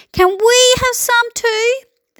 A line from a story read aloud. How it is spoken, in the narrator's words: cried